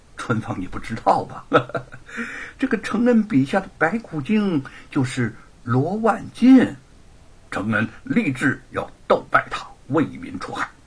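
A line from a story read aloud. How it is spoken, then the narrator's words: Laughing. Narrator (Chinese): 沈坤在一边笑着说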